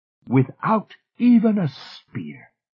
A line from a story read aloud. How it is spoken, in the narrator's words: she said to them triumphantly